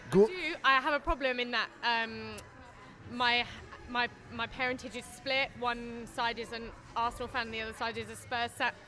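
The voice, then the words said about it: British accent. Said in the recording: “Your accent is amazing. ... You have a perfect ... British accent.”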